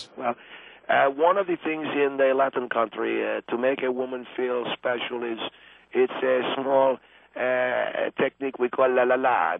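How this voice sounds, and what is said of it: Argentinian Spanish accent. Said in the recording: “I come from Argentina, if you can tell. ... I can tell you have an accent”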